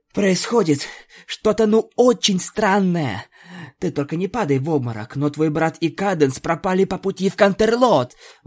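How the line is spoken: Exclamation. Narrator (Russian): воскликнула Пегаска

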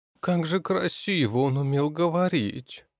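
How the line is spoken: Bitter sigh, girl. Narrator (Russian): С горечью в голосе вздохнула девушка

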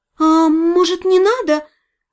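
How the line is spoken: Timid, fearful question. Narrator (Russian): робко спросила я, памятуя про карту смерти, выпавшую в начале гадания

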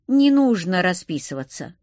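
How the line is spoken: Amused snort. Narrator (Russian): хмыкнул чему-то своему курьер

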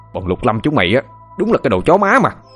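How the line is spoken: Furious yelling. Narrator (Vietnamese): hắn hét lên trong cơn thịnh nộ

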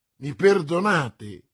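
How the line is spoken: Exclamation. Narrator (Italian): esclamò D'Artagnan

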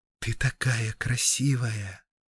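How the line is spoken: Dead mother's whisper. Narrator (Russian): шептала мама, умершая много лет назад

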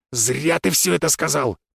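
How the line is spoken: Growl. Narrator (Russian): прорычал он

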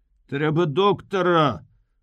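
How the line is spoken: Shout. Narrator (Belarusian): крыкнуў нехта з хлопцаў

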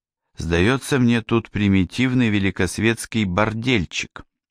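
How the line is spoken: Cheerful. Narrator (Russian): она, весело блестя глазами, сказала

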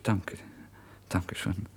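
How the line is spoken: Calm answer. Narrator (German): antworte ich ruhig

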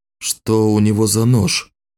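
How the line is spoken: Even hoarse voice. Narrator (Russian): спросил он Вику ровным хриплым голосом

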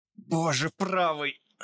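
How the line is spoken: Hoarse, pain-choked voice. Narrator (Russian): Прохрипел Томас перехваченным от боли голосом

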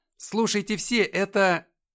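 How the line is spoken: Loud. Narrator (Russian): Я громко сказал

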